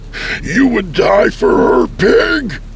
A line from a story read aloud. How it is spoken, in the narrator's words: He screamed at me